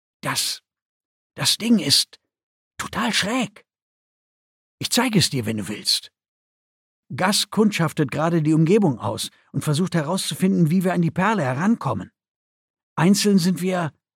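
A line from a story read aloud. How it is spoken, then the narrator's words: Whisper. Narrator (German): hörte sie ihn flüstern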